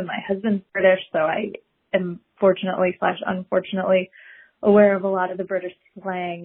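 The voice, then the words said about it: American accent. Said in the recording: “I have a garbage American accent”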